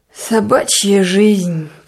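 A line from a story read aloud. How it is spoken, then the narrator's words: Mutter. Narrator (Russian): пробормотал он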